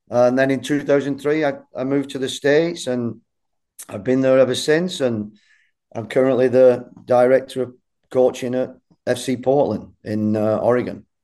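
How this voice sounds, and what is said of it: Bolton accent, slight American twinge. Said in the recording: “you've still got your Bolton accent there. There's a little bit of an American twinge in there”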